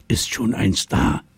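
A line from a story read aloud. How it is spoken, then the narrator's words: Whisper. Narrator (German): flüsterte Luisa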